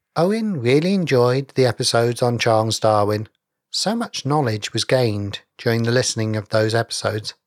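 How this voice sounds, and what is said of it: Measured British accent. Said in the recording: “a very metered British accent”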